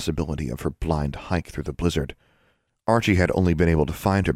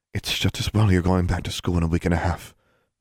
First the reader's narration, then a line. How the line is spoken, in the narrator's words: her mother sighed